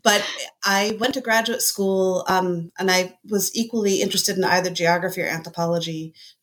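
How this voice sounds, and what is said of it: Slightly muffled, congested voice. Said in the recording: “I have a little bit of a cold, so I might be a little muffled.”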